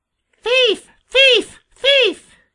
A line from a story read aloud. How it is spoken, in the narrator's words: screamed, hopping up and down, he was so angry